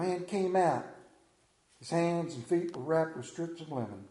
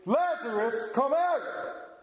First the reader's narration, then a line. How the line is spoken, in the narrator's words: called in a loud voice